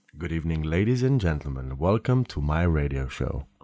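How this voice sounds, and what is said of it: Sexy radio announcer voice. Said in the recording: “your sexiest radio voice”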